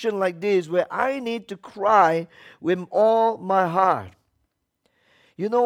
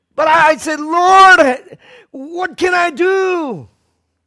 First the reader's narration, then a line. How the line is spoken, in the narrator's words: I cried out